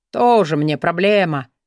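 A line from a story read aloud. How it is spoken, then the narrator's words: Dismissive snort. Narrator (Russian): фыркнул Тадеуш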